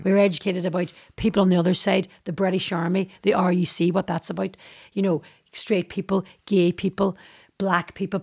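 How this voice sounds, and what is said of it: Northern Irish Derry accent. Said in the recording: “my accent. They couldn't understand me... I'm from Northern Ireland, I'm from Derry... this is the way I speak”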